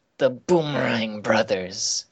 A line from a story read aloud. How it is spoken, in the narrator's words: he grumbles